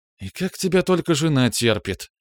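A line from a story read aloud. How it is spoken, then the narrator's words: Sigh. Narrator (Russian): вздохнула Браилова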